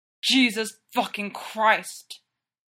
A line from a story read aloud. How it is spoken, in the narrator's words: Derek growls into the skin of Styles' neck